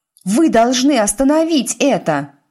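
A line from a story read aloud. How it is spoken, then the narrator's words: Shouting. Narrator (Russian): крикнула Тиффани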